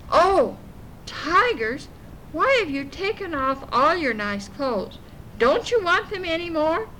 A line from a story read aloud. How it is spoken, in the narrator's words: Little Black Sambo jumped up and called out